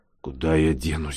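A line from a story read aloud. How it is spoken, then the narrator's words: Grumble. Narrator (Russian): буркнула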